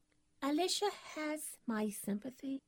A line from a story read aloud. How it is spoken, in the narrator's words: murmured Miss Benedict